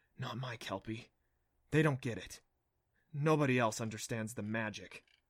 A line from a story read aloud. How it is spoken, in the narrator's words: whispered to himself